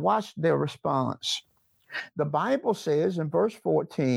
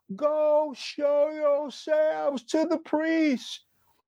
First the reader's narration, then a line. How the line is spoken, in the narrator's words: He shouted out